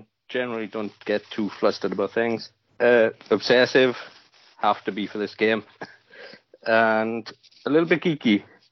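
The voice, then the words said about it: Welsh accent. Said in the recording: “with the accent, we know where you're from ... The more you speak, the more the Welsh accent is coming out.”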